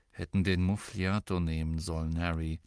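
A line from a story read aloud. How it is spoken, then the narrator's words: Quiet aside. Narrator (German): fügte er leise hinzu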